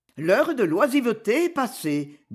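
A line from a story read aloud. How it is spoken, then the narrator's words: Cheerful. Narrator (French): dis-je gaiement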